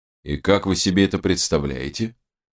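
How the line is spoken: Ghostly skeptical snort. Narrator (Russian): хмыкнул призрак

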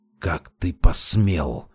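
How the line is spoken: Through gritted teeth. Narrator (Russian): процедил Орлов-старший

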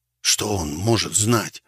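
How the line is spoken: Fearful whisper. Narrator (Russian): так же шепотом ответил я, боясь привлечь внимание снующих в подъезде туда-сюда людей

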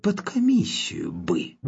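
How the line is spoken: Eerie disembodied whisper. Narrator (Russian): странный бесплотный голос прошептал

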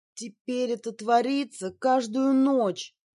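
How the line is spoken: Moan. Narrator (Russian): простонала Джинджер

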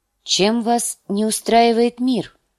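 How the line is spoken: Plain. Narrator (Russian): спросила Кейтилин

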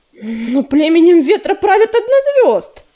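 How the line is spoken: Exclaimed. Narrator (Russian): воскликнул Ежевика

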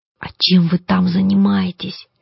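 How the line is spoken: Curious whisper. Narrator (Russian): перешла на шепот, умирающая от любопытства Коломбина

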